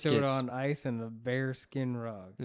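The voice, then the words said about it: Southern-accented villain character voice. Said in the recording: “my Joker impression? Is it bad? ... That's Joker. ... I'm Southern Louisiana Joker.”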